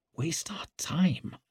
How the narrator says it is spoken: whispered Leo

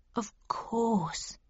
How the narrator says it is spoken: he replied quietly and with great emotion

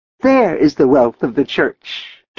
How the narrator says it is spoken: Theresia cried

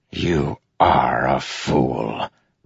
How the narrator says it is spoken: Relis breathed

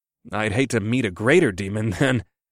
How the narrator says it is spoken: I chuckled

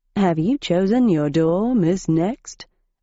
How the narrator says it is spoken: asked Julian Sparkle

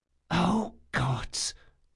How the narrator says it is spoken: she whispered

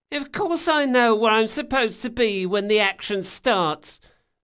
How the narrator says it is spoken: Bug whined

